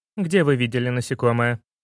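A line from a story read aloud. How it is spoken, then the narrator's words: Woman's stern question. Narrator (Russian): строго спросила женщина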